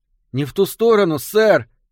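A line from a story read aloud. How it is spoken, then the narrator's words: Boy shouting. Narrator (Russian): крикнул мальчик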